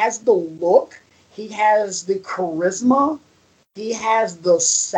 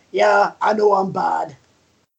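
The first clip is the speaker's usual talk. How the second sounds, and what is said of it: Poor put-on Scottish accent. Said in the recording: “That's my horrible Scottish accent... Very horrible”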